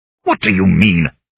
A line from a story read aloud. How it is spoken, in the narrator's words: he said angrily